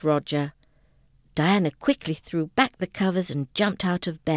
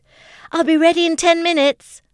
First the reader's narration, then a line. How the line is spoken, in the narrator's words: she shouted to Roger